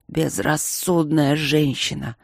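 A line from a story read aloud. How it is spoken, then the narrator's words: Dragon's roar. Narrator (Russian): рыкнул дракон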